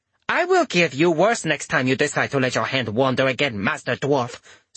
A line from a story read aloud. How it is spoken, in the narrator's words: Sumiko spat at him